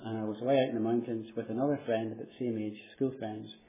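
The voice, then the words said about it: Irish accent. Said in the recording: “You can tell from my accent, I come from Ireland.”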